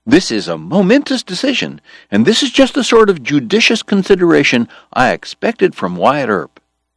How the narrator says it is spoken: George cried

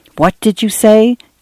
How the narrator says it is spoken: Dan whispered to Cynthia

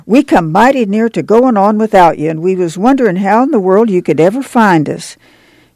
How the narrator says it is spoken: she cried

